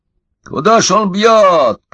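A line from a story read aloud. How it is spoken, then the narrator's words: Shouting. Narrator (Russian): кричал Удалов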